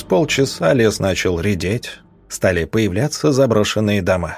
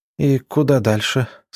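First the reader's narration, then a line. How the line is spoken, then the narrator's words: Tired voice. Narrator (Russian): спросила Надя усталым голосом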